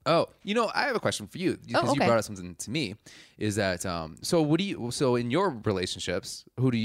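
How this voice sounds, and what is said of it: Usual voice. Nothing is said of it.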